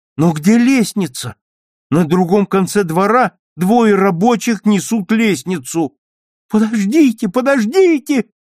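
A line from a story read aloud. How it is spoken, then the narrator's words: Urgent shout. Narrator (Russian): хочет крикнуть Таня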